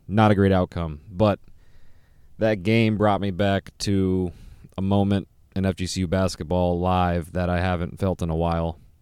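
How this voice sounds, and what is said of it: Hoarse voice. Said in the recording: “My voice is hoarse because I was cheering a little bit at the end there”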